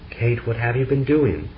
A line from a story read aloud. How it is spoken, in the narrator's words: Frederick he cried out